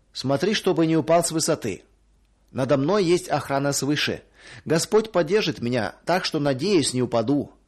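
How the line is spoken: Plain. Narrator (Russian): ответил я

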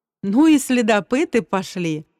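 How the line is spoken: Involuntary laugh. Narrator (Russian): невольно рассмеялся я

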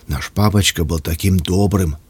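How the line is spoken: Quiet. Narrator (Russian): тихо проговорила Катя

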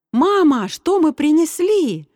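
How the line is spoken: Shout. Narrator (Russian): закричал Саша

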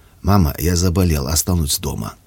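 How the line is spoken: Hoarse voice. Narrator (Russian): Даник сообщил осипшим голосом

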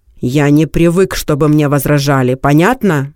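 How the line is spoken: Bearded man shouting. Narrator (Russian): крикнул бородач

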